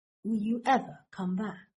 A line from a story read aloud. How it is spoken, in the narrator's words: Draco asks, his voice low